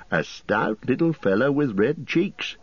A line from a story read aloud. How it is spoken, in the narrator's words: said Mr